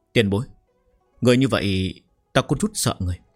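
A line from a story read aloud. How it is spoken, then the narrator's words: Trembling, halting. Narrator (Vietnamese): miệng càng không nói nên lời, run rẩy nói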